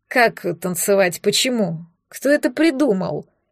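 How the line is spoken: Near moan. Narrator (Russian): Почти простонал император

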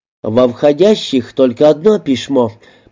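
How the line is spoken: Lisping speaker continuing. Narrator (Russian): продолжал Шепелявый

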